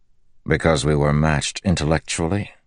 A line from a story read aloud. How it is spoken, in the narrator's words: Dalinar said dryly